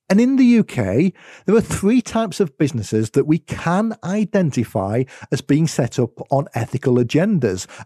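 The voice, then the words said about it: UK accent. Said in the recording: “as you might have been able to tell from my accent, it's where I am in the world ... UK”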